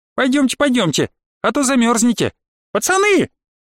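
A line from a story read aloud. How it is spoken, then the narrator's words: Girl's shrill squeal. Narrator (Russian): взвизгнул раскосый главарь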